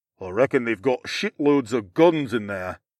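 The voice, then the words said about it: Deep growling Northern English accent. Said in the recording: “one man growled in a deep Northern English accent.”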